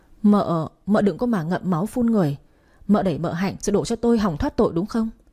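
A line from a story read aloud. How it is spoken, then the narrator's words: Stammering. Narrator (Vietnamese): lắp bắp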